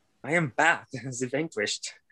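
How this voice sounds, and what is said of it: Terrible put-on accent, hard to place. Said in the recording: “She's got a terrible accent. You can't really place where it's from.”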